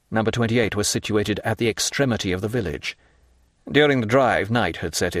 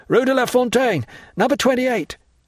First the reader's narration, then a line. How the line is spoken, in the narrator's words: he cried to the coachman